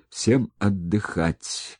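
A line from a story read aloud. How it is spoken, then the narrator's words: Hoarse wheeze. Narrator (Russian): просипел он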